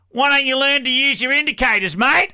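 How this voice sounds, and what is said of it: Exaggerated Australian accent. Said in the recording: “in her best Aussie voice”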